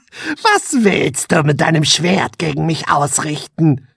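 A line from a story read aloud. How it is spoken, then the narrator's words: Mocking female voice. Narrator (German): höhnte sie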